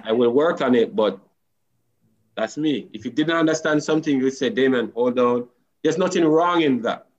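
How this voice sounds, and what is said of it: Strong Creole-influenced accent. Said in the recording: “I have a big accent, so sometimes I have to slow it down ... I might use some of my Creole in it, patwa”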